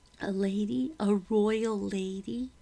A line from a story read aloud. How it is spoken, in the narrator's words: Becky laughed